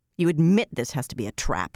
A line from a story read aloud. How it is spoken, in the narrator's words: she growled at him